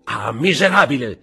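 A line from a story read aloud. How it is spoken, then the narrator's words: General shouting, stung. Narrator (Italian): gridò il generale, colpito da quelle parole come fossero ferro rovente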